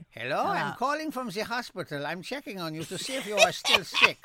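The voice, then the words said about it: Put-on German accent, doctor voice. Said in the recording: “Let me call as a German doctor. ... Or some accent I'll do.”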